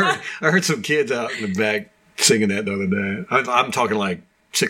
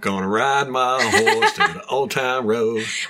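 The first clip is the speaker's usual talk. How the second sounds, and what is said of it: Put-on American country accent. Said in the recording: “Like the country accent.”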